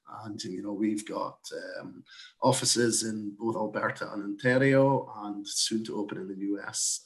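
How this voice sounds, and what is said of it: Scottish accent. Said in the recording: “as you can probably tell from my accent, I'm not from these parts originally, but I moved over from Scotland”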